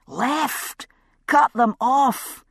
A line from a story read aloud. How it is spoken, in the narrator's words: he heard himself bellowing